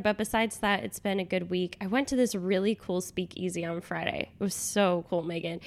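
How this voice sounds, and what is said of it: Nasal, congested voice. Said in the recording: “I've been sick. You can probably hear it in my voice... I just said hi in like a nasally voice... I apologize for the nasaliness this week”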